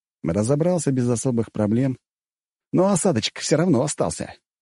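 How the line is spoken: Snort. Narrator (Russian): хмыкнул я

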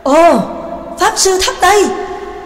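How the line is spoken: Surprised group exclamation. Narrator (Vietnamese): cả bọn đều cùng kinh ngạc thốt lên

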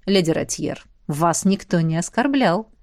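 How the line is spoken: Calm reply, prince. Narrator (Russian): спокойно ответил князь

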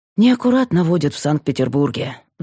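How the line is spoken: Sighed. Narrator (Russian): вздохнул Макар

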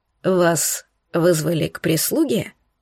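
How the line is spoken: Quiet repetition. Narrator (Russian): Тихо повторил Эйнар

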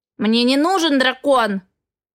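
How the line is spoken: Barked. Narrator (Russian): рявкнул Эгра

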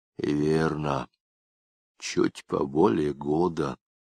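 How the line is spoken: Quiet answer. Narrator (Russian): так же тихо ответил Жмакин

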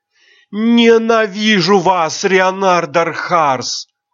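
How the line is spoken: Gasping, furious shout. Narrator (Russian): Она судорожно вздохнула и яростно выкрикнула

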